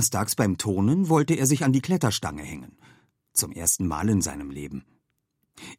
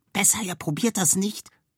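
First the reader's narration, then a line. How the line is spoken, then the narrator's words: Whisper. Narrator (German): flüsterte Anton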